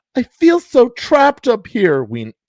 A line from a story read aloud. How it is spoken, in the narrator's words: Tina wailed